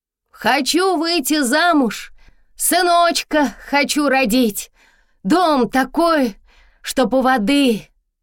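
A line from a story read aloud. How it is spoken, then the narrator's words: Very loud shout. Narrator (Russian): Крикнула Тома громко-громко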